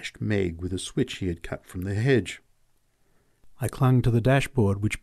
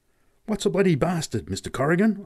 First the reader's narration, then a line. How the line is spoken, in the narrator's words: I gasped at last